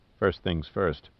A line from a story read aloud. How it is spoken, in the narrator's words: Pitt said quietly